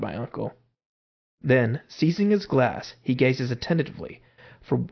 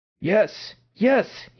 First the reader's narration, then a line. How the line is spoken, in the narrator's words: he cried